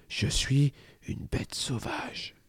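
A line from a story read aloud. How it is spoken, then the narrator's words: Whispered. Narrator (French): chuchote Alix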